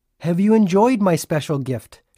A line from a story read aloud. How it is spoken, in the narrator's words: she asked